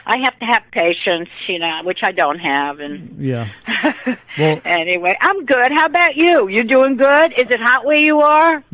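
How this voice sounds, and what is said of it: New York accent. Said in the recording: “I'm a New Yorker, and I love your accent. I feel it. ... Feel like I'm at home now.”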